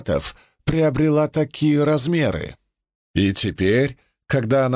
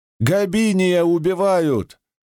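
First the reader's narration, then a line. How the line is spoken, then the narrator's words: Frantic shout. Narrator (Russian): заполошно закричал кто-то позади меня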